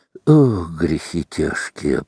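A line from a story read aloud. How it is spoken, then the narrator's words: Muttered. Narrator (Russian): пробормотал Роман Борисович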